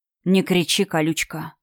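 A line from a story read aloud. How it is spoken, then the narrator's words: Quiet hoarse whisper in ear. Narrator (Russian): Тихо прохрипел на ухо знакомый голос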